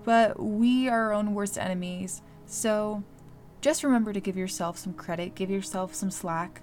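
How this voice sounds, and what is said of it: Maryland accent. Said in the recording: “I also cannot say critic very well. I'm sorry. I'm from Maryland. We have a weird accent.”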